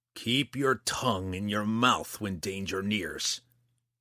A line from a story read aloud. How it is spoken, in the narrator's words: Roddy growled